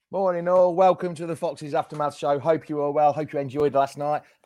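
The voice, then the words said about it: Croaky, strained voice. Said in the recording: “My voice is a bit croaky ... I've got a bit croaky”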